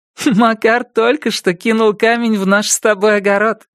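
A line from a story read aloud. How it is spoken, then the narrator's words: Laughing. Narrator (Russian): сообщила она, смеясь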